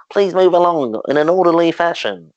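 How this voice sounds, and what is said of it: Impression of Richard Ayoade's voice. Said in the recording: “That's a pretty good impression.”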